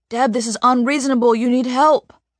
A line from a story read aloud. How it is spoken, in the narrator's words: Dad pleads